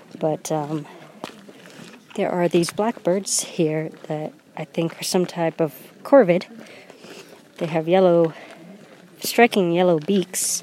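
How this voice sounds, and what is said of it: Congested, sniffly voice from a cold. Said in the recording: “I'm sniffling because ... I have a cold”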